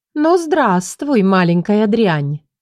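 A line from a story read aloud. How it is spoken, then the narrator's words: Melodic ringing voice. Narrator (Russian): проговорила она мелодичным звонким голосом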